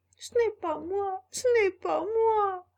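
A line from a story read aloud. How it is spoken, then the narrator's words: Sobbing shout. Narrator (French): cria Pinocchio en sanglotant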